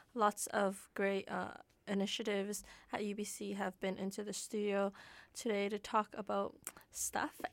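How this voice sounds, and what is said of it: Raspy voice. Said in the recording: “My voice is getting, like, all raspy right now. It's weird.”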